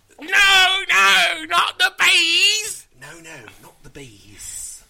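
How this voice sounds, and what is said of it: Put-on Cockney accent. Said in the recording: “You gotta do that in a Cockney accent like Michael Caine.”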